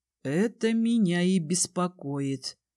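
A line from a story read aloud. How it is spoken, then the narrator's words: Drawled. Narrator (Russian): протянул Кай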